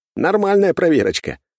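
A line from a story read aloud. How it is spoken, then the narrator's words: Snort. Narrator (Russian): хмыкнул я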